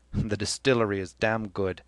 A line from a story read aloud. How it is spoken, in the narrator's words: Cranley laughed, and said